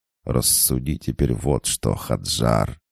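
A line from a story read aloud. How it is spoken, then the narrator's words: Through gritted teeth. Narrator (Russian): процедил Абрахам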